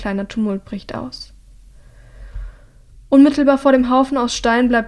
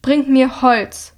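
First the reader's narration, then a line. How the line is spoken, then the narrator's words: Thundering. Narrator (German): donnert Hilda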